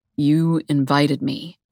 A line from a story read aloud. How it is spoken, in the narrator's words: he says thickly